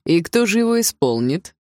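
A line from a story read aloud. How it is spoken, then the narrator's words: Chuckling. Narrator (Russian): хохотнул отчим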